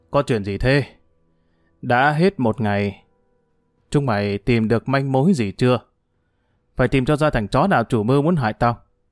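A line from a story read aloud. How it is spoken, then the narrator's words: Harsh stressed voice. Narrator (Vietnamese): Hưởng gằn giọng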